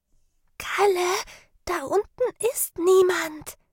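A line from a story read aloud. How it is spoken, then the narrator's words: Whispering. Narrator (German): flüsterte Sarah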